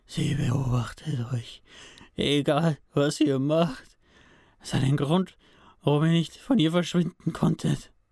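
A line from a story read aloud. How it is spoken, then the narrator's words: Soft groan. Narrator (German): stöhnte Sam leise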